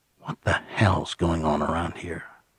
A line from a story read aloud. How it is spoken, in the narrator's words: lowered his voice, and said